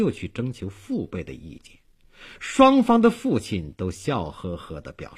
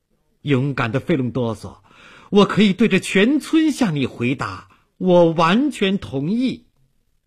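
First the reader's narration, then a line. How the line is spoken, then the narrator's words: Loud solemn vow. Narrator (Chinese): 他像表白誓言那样大声说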